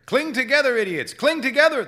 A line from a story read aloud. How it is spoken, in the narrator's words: the captain yelled